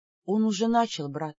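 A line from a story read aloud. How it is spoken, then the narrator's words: Whisper. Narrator (Russian): прошептала я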